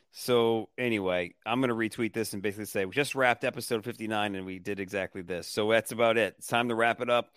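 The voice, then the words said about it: Strained, hoarse, fading voice. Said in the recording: “I'm losing my voice, dude.”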